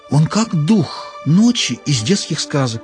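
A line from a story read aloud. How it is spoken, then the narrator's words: Excited whisper. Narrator (Russian): взволнованно шепнула Чара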